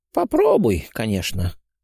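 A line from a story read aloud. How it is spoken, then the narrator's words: Tired agreement. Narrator (Russian): устало согласился Дмитрий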